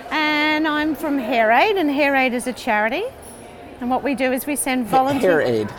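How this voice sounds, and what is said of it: Australian accent. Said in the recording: “I'm obviously Australian from the accent.”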